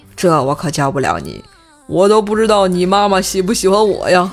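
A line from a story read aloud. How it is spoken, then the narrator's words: Wry, bitter laugh. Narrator (Chinese): 鸡哥苦笑着回答他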